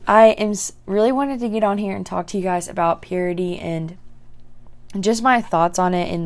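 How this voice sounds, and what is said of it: Groggy, slightly different-sounding voice. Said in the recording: “my voice sounds a little different. I like just literally woke up like an hour ago”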